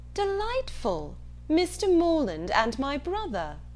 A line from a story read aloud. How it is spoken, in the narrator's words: exclaimed